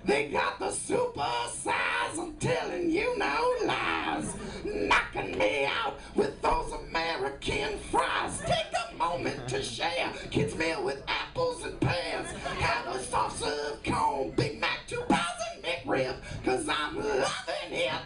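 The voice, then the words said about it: Imitates a rock band singing. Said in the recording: “my impression of AC/DC doing a McDonald's commercial”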